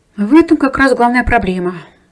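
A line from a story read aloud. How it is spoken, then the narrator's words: Sighing. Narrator (Russian): вздохнула Кира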